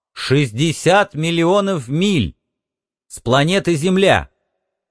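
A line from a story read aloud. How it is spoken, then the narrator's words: Loud. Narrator (Russian): громко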